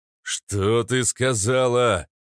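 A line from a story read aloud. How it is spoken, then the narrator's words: Roaring outrage. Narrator (Russian): проревел внешник, когда до него дошел смысл сказанного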